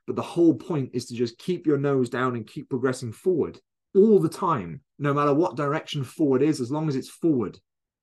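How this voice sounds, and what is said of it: Loud, excited shouting. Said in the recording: “I'm getting carried away now. Can you tell? I'm shouting at the computer.”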